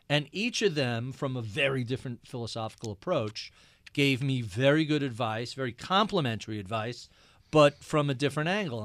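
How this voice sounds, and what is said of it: Thick New York Long Island accent. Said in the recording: “like you and I do, a pretty thick New York, Long Island accent”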